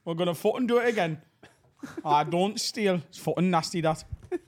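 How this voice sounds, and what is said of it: Put-on Birmingham accent, not very good. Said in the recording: “That's your Jasper Carrot... Famous Birmingham comedian Jasper Carrot... That was a Birmingham accent... I didn't say it was good”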